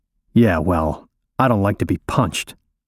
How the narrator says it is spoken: I mutter

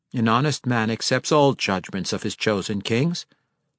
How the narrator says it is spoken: de Bernazon declared, trying to keep his voice as steady as possible

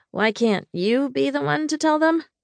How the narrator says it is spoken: I asked uneasily

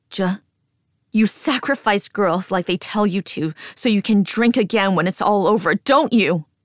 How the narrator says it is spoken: I scream louder

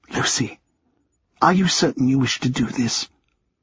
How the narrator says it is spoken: leaning in and whispering

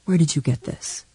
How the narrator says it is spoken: He would whisper

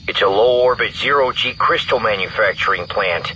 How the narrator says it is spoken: Rogue 4 continued grimly

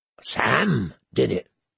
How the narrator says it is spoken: Gren whispered

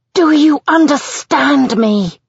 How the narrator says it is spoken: I scream the words in her face

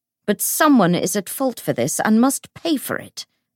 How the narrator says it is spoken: snapped Bridgestock

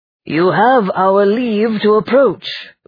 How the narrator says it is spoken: boomed the apparition

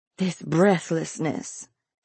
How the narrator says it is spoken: muttered

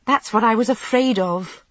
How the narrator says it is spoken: I said crossly

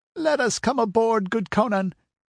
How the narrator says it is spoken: whined a red-sashed Zamorian, glancing fearfully

